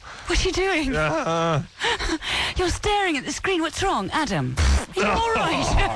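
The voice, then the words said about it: Put-on English accent. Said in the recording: “She had an English accent.”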